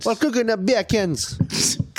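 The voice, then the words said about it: Put-on Jamaican accent. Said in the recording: “you can't say it with a Jamaican ... Just went full Jamaican.”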